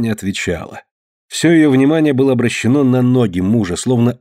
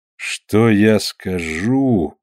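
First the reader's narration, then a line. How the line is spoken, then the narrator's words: Thoughtful question. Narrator (Russian): в задумчивости переспросил Кручинин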